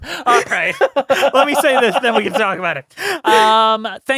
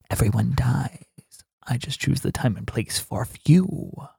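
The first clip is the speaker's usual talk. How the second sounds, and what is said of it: ASMR-style horror villain voice. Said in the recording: “Here is some ASMR, but I'm gonna do it with a line from this movie ... that was my best Robert Englund impression.”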